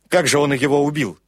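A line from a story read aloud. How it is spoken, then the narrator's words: Sharp, curt. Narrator (Russian): резко бросил Крэг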